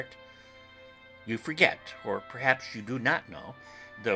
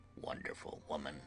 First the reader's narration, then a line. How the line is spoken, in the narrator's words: murmured the professor